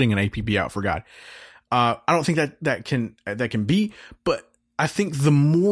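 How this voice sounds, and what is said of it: Usual voice. Nothing is said of it.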